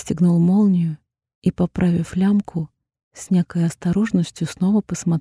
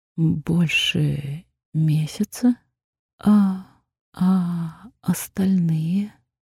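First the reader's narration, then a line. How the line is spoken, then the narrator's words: Muffled hollow voice. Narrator (Russian): Мой голос звучал глухо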